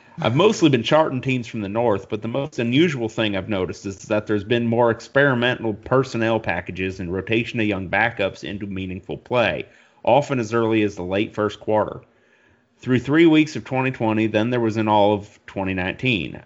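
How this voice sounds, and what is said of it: Put-on American Southern accent. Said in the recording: “I'm going to do this in a southern accent.”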